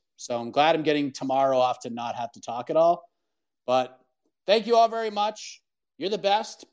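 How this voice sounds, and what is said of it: Worn-out, strained voice. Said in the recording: “my voice is toast”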